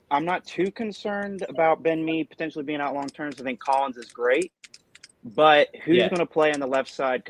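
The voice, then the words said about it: American accent. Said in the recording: “you're based in America ... as you can tell by the accent”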